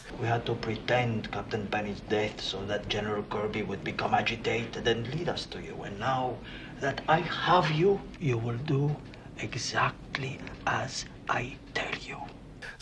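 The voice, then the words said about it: Awful put-on accent. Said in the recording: “Dan Hedaya's most awful, awful accent ... he does some of the worst accent in all of his movies, but he sounds so believable”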